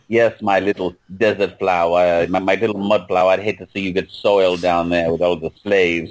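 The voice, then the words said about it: Fancy affected upper-class accent. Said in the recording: “Vincent Price is the master builder with his fancy affected, you know, accent.”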